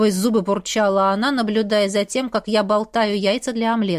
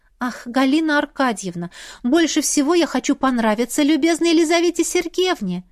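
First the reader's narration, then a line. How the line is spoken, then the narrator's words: Timid babble. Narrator (Russian): пролепетала я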